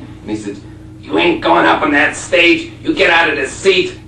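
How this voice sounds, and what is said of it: Put-on Buffalo, New York accent. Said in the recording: “I don't know if I can do the accent, a Buffalo, New York accent, probably”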